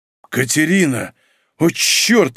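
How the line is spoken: Breathed out. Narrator (Russian): выдохнул Павел

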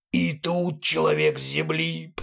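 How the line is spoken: Hoarse wheeze. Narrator (Russian): прохрипела левая голова двуглавого Юла

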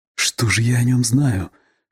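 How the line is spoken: Whispering to herself. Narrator (Russian): шепотом спрашивала себя Вера Львовна

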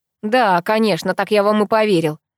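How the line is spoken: Snorting. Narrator (Russian): хмыкнул Герман

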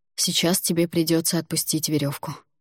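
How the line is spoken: After a deep sigh. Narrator (Russian): Альгидрас глубоко вздохнул за моей спиной и сообщил

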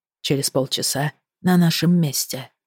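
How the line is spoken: Whisper in the ear. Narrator (Russian): склонившись к моему уху, прошептал

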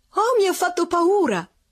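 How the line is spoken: Exclaimed in unison. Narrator (Italian): esclamarono all'unisono Madame Couture e Madame Vauquet

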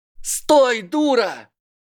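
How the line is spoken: Yelling. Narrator (Russian): заорал Драко

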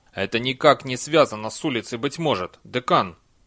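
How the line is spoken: Sharp. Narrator (Russian): резко сказал Чудакули

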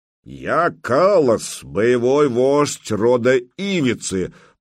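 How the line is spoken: Deep bass voice. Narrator (Russian): пробасил тот, что стоял в центре

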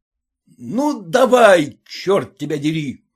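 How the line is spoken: Irritated shout. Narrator (Russian): раздраженно крикнул муж

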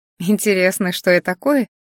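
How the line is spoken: Laughing. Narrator (Russian): рассмеялась Араэу

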